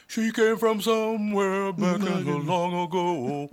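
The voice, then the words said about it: Imitates another person's singing voice. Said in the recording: “great Michael McDonald impression”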